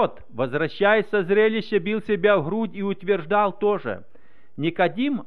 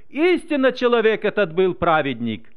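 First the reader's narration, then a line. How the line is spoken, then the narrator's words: Officer's reverent exclamation. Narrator (Russian): Один офицер даже воскликнул, прославляя Бога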